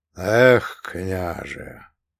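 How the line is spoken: Heavy sigh. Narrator (Russian): тяжко вздохнул Иов

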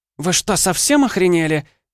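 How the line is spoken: Shrill shriek. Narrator (Russian): взвизгнула Ванда

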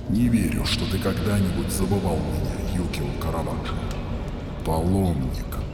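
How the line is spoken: Prisoner muttering. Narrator (Russian): бормочет узник

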